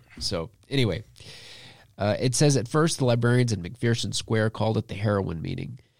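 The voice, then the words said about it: Throat-affected, altered-sounding voice. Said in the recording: “my voice sounds like very White or something ... I woke up this morning and I had this in my in my throat”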